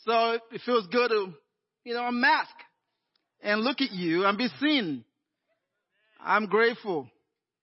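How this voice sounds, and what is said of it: Nigerian accent. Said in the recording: “I got an accent ... I am Nigerian-American ... I'd grown up in Nigeria”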